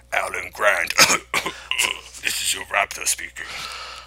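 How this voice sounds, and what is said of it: Coughing, raspy monster voice. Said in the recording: “the raptor sounds like, you'd think it would hiss a lot, but it doesn't. It actually coughs quite a bit. It sounds more like General Grievous than anything.”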